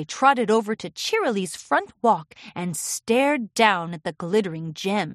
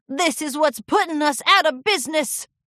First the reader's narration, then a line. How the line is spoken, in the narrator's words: Cloudy cried